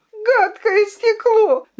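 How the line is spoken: Shout. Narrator (Russian): закричала королевна

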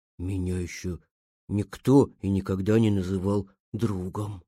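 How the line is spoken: Quiet speech. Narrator (Russian): произнес он тихо

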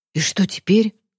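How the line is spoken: Whispered question. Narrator (Russian): шепотом спросил Захар

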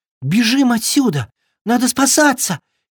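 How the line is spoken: Frightened exclamation. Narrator (Russian): испуганно воскликнул Триша

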